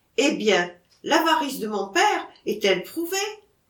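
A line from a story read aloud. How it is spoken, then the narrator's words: Exclaimed. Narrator (French): s'écria Alexandre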